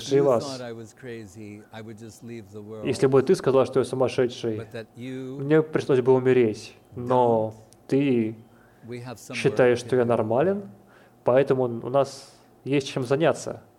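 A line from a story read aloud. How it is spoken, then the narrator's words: Suddenly serious question. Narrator (Russian): Махапрабху, Нимай Пандит, неожиданно прекратил смеяться и спросил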